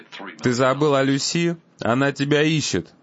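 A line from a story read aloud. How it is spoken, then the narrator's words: Laughing. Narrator (Russian): Он засмеялся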